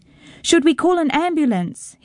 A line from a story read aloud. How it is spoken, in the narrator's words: his father shouting